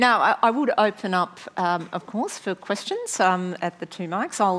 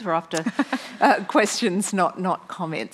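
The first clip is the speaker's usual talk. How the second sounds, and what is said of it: Imitates another person's voice. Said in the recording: “I'll do my best imitation of Tony Jones.”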